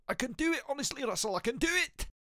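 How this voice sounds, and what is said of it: Poor Scottish accent impression. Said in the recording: “I do apologise to anybody who's Scottish listening. That was a terrible impression”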